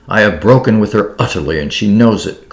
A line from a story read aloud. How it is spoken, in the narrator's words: cried Derek angrily